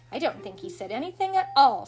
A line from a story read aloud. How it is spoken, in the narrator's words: said Michael crossly